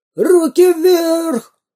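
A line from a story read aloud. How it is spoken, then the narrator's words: Robber yelling. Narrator (Russian): завопил первый разбойник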